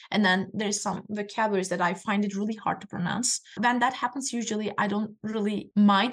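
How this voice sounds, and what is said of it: Non-native English accent. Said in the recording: “this is my accent”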